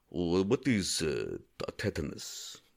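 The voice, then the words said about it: Put-on Tajikistani accent. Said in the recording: “a spot on Tajikistani impersonation”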